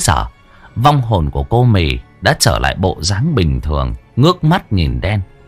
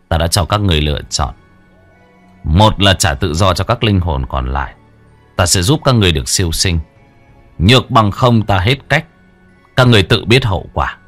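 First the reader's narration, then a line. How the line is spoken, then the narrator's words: Cold. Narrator (Vietnamese): Đen lạnh lùng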